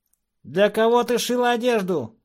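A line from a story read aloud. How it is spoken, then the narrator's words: Yelling again. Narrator (Russian): снова заорал Шонка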